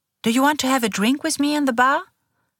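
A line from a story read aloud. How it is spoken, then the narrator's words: Cheerful question. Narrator (German): fragt sie fröhlich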